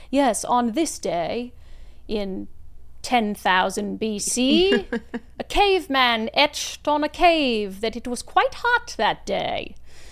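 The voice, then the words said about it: Put-on accent. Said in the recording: “I don't know why that was my accent.”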